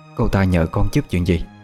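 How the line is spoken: Worried question. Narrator (Vietnamese): bà hỏi lại với giọng điệu đầy lo lắng

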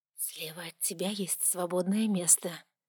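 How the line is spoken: Whisper in the ear. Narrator (Russian): прошептал мне на ухо голос Настурции

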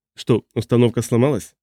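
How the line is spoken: Plain. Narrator (Russian): спросил Абу-Джабр

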